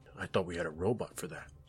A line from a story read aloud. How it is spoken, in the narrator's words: I muttered under my breath